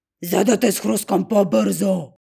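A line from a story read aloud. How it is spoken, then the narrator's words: Roaring. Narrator (Bulgarian): ревнал вълкът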